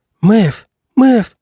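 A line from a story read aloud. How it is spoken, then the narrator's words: Choked faint whisper. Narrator (Russian): крикнула она, но горло было настолько стиснуто, что раздался только слабенький шепоток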